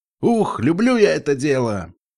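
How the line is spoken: Distant shout. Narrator (Russian): крикнул какой-то пони с крыши

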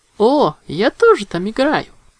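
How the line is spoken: Joyful exclamation. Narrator (Russian): радостно воскликнула Винил

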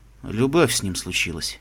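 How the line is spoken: Quiet. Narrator (Russian): ответил он негромко

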